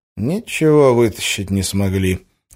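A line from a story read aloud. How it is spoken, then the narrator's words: Sighing. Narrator (Russian): вздохнул Гессер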